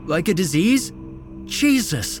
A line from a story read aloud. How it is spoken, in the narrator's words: Esteban sputtered